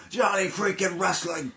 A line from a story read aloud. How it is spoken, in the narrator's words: Johnny literally yells to the crowd